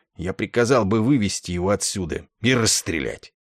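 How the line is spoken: Grumbled. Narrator (Russian): проворчал генерал Дридл

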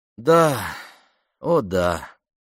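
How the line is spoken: Sighed. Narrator (Russian): вздохнула Памела

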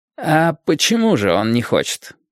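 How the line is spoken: Gentle question. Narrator (Russian): мягко спросил Алекс

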